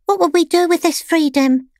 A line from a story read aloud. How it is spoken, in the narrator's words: asked one of the younger pets timidly